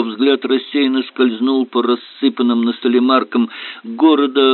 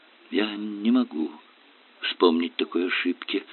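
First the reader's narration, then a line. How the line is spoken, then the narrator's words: Muttered. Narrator (Russian): пробормотал он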